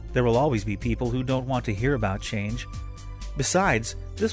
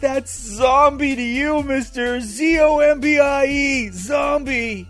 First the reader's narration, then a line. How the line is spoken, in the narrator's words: Without even thinking, Carl yelled back